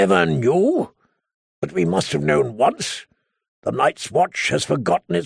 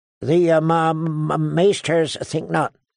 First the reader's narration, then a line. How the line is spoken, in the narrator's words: Sam stammered